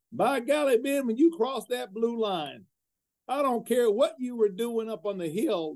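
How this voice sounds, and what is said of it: Poor imitation of South Carolina accent. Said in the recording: “I'm going to do my terrible South Carolina accent”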